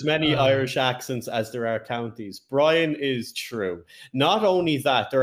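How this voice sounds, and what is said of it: Usual voice. Nothing is said of it.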